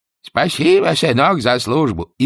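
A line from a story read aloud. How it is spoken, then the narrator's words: Tired, elderly-sounding voice. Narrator (Russian): Чонкин усталым, отчасти даже старческим голосом изобразил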